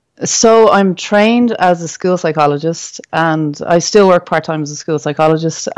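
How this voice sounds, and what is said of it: Irish accent. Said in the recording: “we could tell by your accent ... where you may be from ... I'm recording from Dublin in Ireland”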